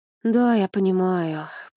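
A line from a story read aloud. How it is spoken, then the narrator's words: Thoughtful drawl. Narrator (Russian): протянул задумчиво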